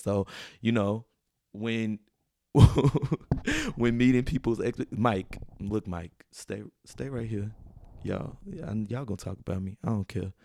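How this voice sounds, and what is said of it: Strong country dialect. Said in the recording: “I'm being real country ... I'm talking really country right now”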